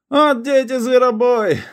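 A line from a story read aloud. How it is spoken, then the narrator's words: Rat shouting. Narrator (Russian): закричал пасюра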